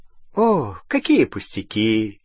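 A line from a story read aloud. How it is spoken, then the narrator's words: Ringing laughter. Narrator (Russian): миссис Уизли заливисто рассмеялась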